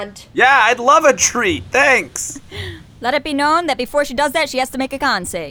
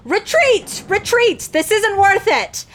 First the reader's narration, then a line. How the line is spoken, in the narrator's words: yell